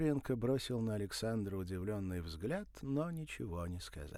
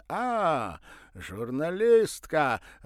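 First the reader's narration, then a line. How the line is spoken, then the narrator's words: Joyful exclamation. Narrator (Russian): радостно воскликнул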